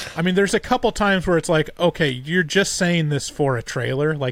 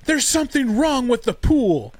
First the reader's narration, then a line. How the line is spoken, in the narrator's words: the mom, I think, is the one that says it, just screams out